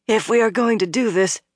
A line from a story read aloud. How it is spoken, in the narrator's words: Min said hoarsely